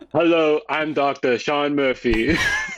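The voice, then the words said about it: Impression of a TV doctor character. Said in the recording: “That's my good doctor impression.”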